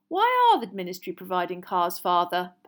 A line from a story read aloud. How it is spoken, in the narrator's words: Percy asked again in a dignified voice